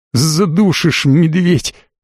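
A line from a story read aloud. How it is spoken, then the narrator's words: Wheezing, squeezed breathless. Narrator (Russian): только и смог я просипеть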